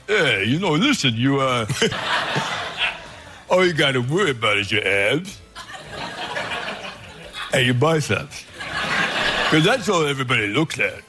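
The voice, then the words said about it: Sylvester Stallone impression. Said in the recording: “pretty good Stallone impression”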